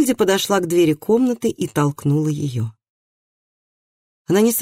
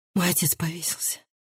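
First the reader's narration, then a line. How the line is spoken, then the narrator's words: Breathed out. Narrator (Russian): выдохнула она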